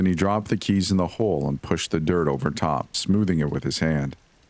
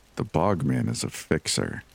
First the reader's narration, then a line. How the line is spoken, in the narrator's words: he said softly